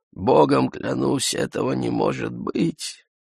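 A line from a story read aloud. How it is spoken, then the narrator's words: Moaning. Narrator (Russian): Он простонал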